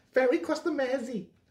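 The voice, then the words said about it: Put-on Scouse accent. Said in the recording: “my Scouse accent, by the way”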